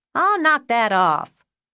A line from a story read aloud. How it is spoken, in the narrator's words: Deborah yelled